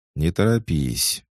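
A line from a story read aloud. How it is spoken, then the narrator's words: Calm voice. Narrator (Russian): спокойно произнесла Гера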